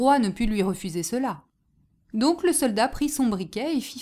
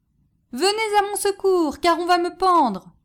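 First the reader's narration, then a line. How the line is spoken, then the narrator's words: Soldier crying out. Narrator (French): s'écria le soldat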